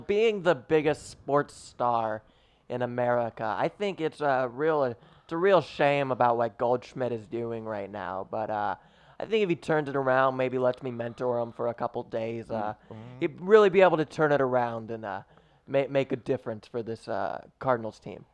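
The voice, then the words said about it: Impression of a TV sports influencer. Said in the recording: “I'm going to do an impression of Travis being a sports influencer on TV”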